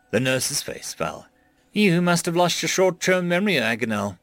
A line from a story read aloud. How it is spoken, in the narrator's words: she said sadly